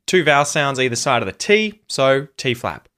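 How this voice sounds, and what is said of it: Australian English accent. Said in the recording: “In the Australian accent, the R isn't pronounced if there's a consonant after it.”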